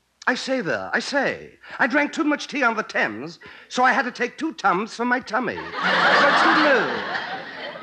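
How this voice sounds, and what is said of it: Posh upper-class English accent. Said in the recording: “impression of Noel Coward ... That is some English accent ... I speak English like I got a monocle up my nose”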